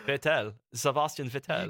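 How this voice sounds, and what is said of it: Mock German accent. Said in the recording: “that's how you say it in a German accent.”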